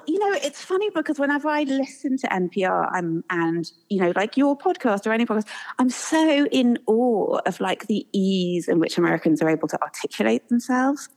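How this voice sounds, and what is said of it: English accent. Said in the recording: “I probably still sound as English as I've ever done ... you sound incredibly English”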